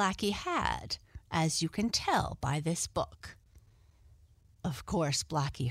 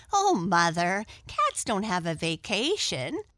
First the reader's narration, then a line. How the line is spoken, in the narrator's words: laughed Arthur